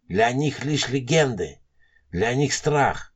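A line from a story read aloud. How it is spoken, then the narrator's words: Old man's whisper. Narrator (Russian): прошептал старик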